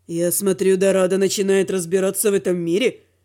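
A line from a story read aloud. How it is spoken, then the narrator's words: Snide question. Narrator (Russian): Ехидно спросил дракон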